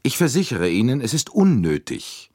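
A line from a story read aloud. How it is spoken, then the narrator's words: Curt. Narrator (German): wiederholte André Agnew schroff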